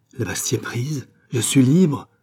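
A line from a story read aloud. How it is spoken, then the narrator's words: Doctor exclaiming. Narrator (French): s'écria le docteur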